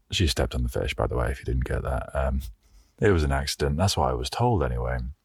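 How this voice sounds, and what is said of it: Strained, unusual-sounding voice. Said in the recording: “my voice is weird today, by the way. Like, the cold and the altitude ... I think it's messing with my voice a little bit. I'm very dehydrated as well.”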